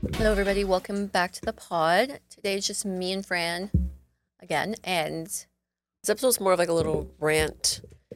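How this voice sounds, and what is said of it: Nasal, stuffy sick voice. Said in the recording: “my voice sounds really messed up because I've been sick. So sorry if I'm a little bit nasally and stuffy.”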